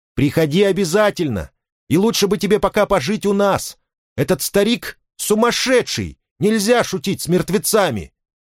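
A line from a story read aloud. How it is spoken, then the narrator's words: Shouting. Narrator (Russian): крикнул ей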